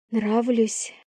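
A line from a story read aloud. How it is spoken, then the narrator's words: Breathy. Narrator (Russian): Выдохнула она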